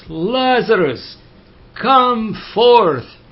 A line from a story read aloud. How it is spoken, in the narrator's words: He cried with a loud voice